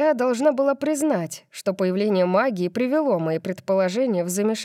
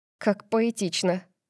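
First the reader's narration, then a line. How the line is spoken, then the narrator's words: Disbelieving mutter. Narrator (Russian): пробормотала я, все еще не до конца веря в идею гороскопа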